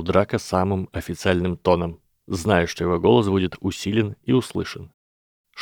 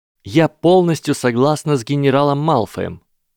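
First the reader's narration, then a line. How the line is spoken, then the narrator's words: Loud and ringing. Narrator (Russian): громко и звонко сказала Грейнджер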